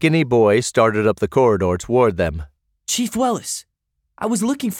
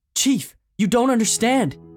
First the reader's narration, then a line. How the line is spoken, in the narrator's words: he gasped